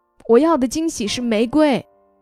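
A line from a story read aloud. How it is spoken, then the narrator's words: Girl, whimpering tearfully. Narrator (Chinese): 收货的姑娘哭哭咧咧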